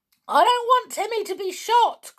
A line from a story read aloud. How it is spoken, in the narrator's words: cried out George in terror